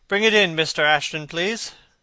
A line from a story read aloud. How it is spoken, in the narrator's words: he said wearily